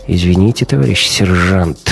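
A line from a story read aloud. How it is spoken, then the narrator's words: Sighing. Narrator (Russian): вздохнул Гумилев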